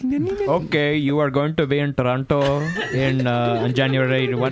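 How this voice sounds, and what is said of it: Put-on Indian accent. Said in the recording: “can you get my plugs in an Indian accent?”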